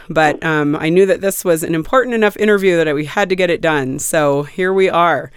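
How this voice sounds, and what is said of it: Sick-sounding voice. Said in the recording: “you can tell from my voice I'm a little bit sick”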